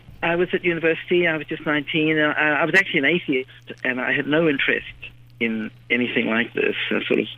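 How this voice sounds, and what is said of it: New Zealand accent. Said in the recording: “I grew up in New Zealand, and you might be able to tell that from my accent.”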